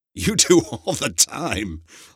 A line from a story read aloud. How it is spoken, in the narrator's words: laughed Alex